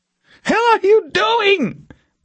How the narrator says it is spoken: Borkin screamed at her

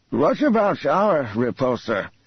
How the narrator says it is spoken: Asked the drawl Ebrahim

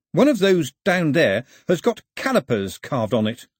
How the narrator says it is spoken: said Pilu cheerfully

